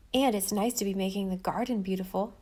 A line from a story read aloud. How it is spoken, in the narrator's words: said Jim